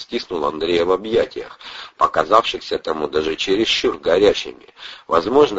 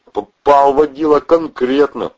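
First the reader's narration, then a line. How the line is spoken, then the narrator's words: Almost cheerful. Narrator (Russian): почти радостно заявил Протасов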